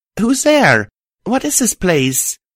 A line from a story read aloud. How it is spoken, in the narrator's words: called out